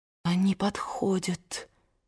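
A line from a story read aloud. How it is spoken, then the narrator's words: Whisper. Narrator (Russian): прошептала Мелани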